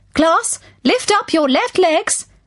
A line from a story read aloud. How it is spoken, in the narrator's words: Miss Tutu shouted